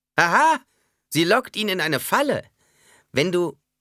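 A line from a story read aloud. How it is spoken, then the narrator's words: Said laughing behind hand. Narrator (German): Jeder Fremen, der davon hörte, würde in die hohle Hand lachen und sagen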